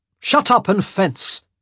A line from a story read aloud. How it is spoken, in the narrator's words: Benedict snapped